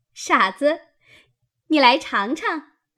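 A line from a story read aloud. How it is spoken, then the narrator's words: Laughing. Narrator (Chinese): 湘云笑道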